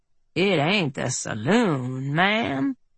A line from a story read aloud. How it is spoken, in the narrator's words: Earp drawled